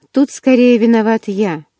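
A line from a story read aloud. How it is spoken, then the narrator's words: Grim chuckle. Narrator (Russian): мрачно усмехнулся Эдвард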